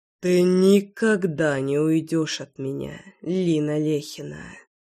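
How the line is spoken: Hoarse voice. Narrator (Russian): хриплый голос

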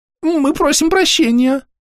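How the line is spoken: Shrill squeal. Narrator (Russian): взвизгнул другой голос, вероятно, принадлежащий той самой Дрю

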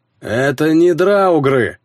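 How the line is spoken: Barked. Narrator (Russian): рявкнул

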